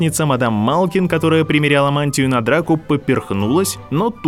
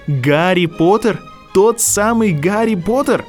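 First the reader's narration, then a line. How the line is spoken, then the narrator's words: Delighted exclamation. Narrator (Russian): С восторгом воскликнул Драко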